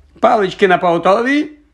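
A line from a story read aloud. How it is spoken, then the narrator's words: Shout. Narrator (Ukrainian): крикнув Локарт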